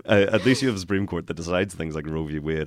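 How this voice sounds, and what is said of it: Northern Irish accent. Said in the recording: “I am from Northern Ireland”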